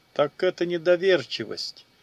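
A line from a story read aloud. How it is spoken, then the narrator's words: Cheerful laugh, mage. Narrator (Russian): весело рассмеялся маг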